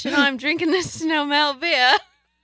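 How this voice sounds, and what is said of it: Attempted British accent, sounds off. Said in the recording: “Like a Southern thingy, and it didn't sound British at all ... That's not bad. ... That doesn't sound Southern.”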